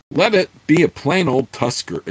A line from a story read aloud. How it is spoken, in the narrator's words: exclaimed Chert enthusiastically